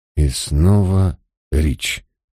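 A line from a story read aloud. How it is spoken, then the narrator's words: Muttering. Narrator (Russian): пробормотал я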